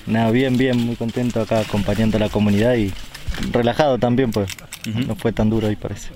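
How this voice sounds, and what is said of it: Southern Colombian Nariño accent. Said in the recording (Spanish): “Usted tiene acento como del sur, ¿de Nariño?”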